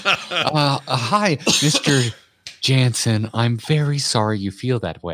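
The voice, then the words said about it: Put-on mom voice. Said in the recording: “my default mom voice”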